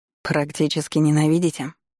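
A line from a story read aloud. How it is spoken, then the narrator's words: Snorting werewolf. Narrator (Russian): хмыкнул оборотень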